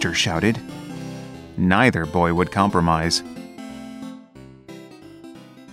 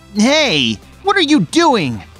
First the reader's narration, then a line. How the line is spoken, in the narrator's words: Carlos shouted at Victor